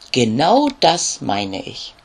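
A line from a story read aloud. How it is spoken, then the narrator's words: Plain. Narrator (German): antwortet die Bienenkönigin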